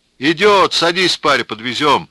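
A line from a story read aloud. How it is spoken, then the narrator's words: Shouting with loud laughter. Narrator (Russian): кричал Иван Стеклодув и громко смеялся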